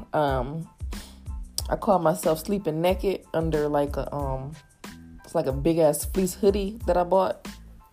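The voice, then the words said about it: Congested voice with a cold. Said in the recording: “excuse my voice ... got the sniffles ... She kind of caught the cold.”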